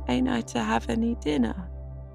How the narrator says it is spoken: wailed Davy

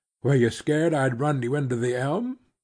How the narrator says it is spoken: asked with a boyish laugh

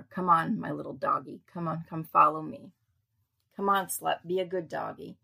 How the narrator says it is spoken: Miss Summer's friend said, laughing

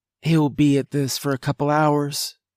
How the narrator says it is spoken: she sighed

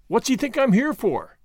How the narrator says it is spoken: cried Gordon

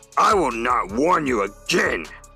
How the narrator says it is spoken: growled Alpha

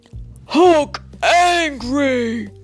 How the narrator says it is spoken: he grunted

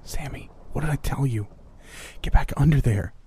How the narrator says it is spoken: hissed

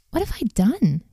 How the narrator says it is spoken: he exclaimed

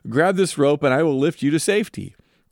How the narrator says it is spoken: the man in the helicopter shouts down

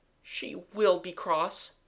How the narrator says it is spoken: said sadly

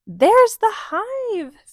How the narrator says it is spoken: Phoebe cried

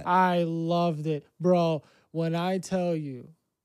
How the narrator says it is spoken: I yelled

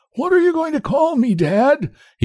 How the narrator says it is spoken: he quavered

